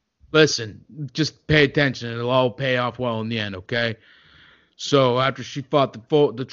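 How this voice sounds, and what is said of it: Usual voice. Nothing is said of it.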